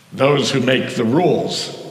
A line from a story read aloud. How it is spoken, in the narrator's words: growled Pushkin